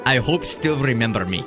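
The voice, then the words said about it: Put-on Russian accent. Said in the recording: “I should try this in a Russian accent. ... I don't know how to do one. ... was that close? ... That was pretty good,”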